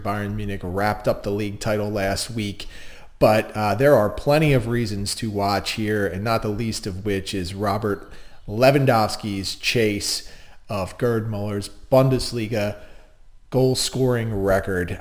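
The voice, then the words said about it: Strong Delco accent. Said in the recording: “my Delco accent is in full force ... I am a Delco native”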